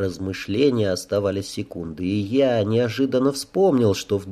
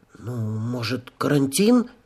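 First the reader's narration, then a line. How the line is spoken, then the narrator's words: Uncertain question. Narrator (Russian): спросила она неуверенно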